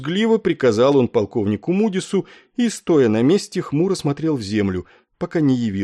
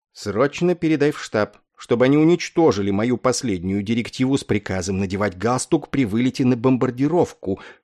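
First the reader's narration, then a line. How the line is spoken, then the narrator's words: Whispered through still lips. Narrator (Russian): шепнул, стараясь не шевелить губами, полковник Кошкарт подполковнику Корну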